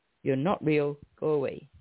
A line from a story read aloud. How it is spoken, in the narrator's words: proclaiming loudly